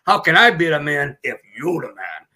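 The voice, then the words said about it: Imitates another person's voice. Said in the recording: “But that's him, isn't it? I did a good impression.”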